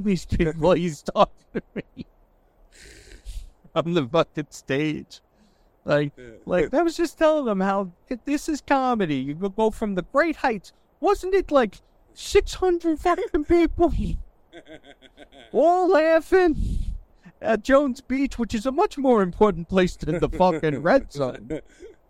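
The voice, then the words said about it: Imitates another person's voice. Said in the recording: “good Fat Jay impression ... That's fucking spot on.”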